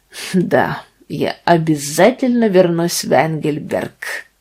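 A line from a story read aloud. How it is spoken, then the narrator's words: Gloomy accented reply. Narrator (Russian): ответил он с мрачным акцентом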